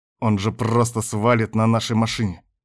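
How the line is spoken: Restrained growl through teeth. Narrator (Russian): прорычал сквозь зубы Кастер только для того, чтобы не проорать это во весь голос

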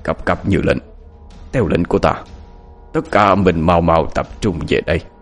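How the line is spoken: Muttered incantation. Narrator (Vietnamese): miệng lẩm bẩm

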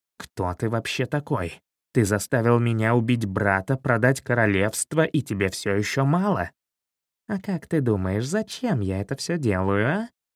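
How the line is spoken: Angry hiss. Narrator (Russian): Злобно прошипел Хитроус

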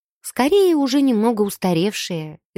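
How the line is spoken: Sad, smiling young woman. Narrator (Russian): девушка печально улыбнулась

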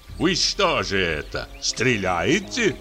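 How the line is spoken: Mocking voice. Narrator (Russian): говорит поляк насмешливым голосом

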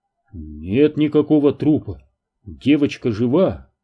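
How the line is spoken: Bewildered answer. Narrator (Russian): растерянно ответил Дэн

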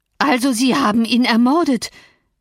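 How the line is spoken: Horrified cry. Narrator (German): rief Joseph, schreckensvoll

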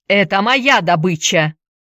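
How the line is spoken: Shouting. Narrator (Russian): крикнул он

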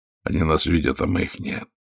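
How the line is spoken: Grim. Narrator (Russian): мрачно сказал Загорский

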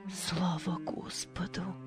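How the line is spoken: Whisper, mother. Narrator (Russian): прошептала мать

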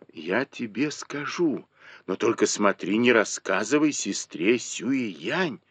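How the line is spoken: Whisper. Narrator (Russian): шепнул ей Мо Юй

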